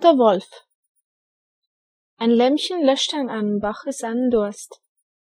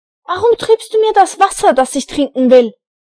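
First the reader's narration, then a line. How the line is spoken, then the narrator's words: Screamed. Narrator (German): schrie er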